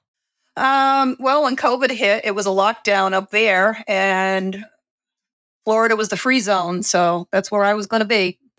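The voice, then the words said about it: Slight Boston accent. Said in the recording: “I detected a little bit of a Boston accent... I can hear it too, a little bit.”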